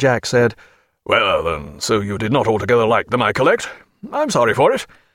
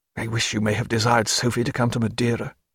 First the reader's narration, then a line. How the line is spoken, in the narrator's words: muttered Stephen